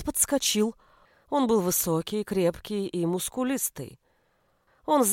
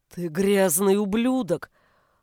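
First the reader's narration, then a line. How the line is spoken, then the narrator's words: Growled. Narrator (Russian): прорычал Хершель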